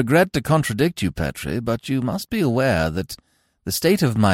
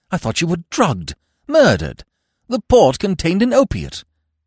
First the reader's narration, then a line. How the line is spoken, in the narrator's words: I said, my heart beating wildly